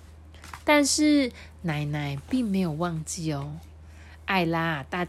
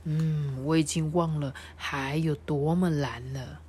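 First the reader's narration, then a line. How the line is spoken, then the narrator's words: Murmuring to himself. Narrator (Chinese): 爸爸也喃喃自语说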